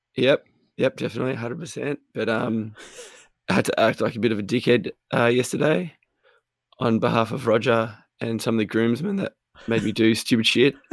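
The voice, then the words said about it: Hoarse voice that cracks. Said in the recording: “you'll hear my voice crack a fair bit during this recording. I lost my voice.”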